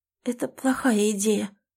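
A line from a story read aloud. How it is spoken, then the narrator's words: Trembling whisper. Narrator (Russian): дрожащим голосом шепчет Малина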